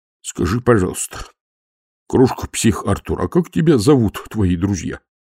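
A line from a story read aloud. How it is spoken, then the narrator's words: Mutter. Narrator (Russian): пробормотал Колон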